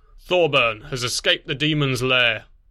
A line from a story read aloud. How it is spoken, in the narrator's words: Conquest said, his voice a low rumble